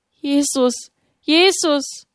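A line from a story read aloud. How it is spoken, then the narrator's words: Trembling cry. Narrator (German): Mit bebenden Lippen rief sie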